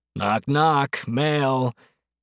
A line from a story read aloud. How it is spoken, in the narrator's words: he heard him bellow